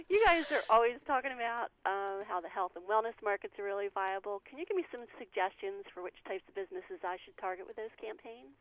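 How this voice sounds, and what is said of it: Southern American accent. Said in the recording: “That's why I got that southern accent going on there.”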